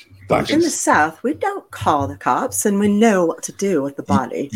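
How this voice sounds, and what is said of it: Put-on British accent. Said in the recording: “I'll do it in a British accent. ... You're doing a British accent. ... It's beautiful.”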